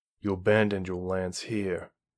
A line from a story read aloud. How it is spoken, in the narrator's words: Carradine said coldly